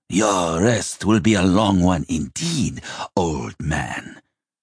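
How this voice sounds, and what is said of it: Cruel, hoarse character voice. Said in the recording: “a cruel, hoarse voice.”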